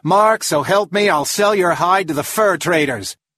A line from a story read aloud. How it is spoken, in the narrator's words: yelled